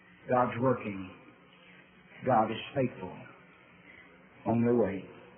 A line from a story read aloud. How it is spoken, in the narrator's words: that gentle whisper ever pleading